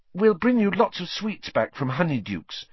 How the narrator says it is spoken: said Hermione, looking desperately sorry for him

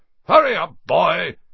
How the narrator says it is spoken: shouted Uncle Vernon from the kitchen

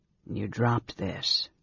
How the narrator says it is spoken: he said coolly

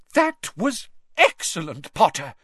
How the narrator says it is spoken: cried Professor McGonagall, which from her was extravagant praise

